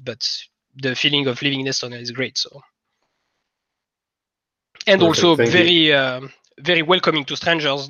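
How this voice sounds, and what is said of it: French accent in English. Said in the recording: “my English and my French accent with it”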